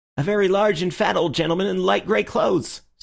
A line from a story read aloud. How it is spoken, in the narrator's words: said the keeper eagerly